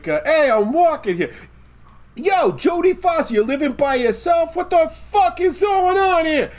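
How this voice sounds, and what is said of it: Italian New Yorker accent. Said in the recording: “doing an Italian accent there, but like the New York town ... Italian New Yorkers”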